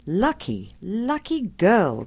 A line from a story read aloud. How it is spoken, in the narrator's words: cried Mary, as soon as she could speak